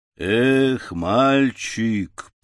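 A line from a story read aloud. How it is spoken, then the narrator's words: Grumbled in English. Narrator (Russian): проворчал разведчик по-английски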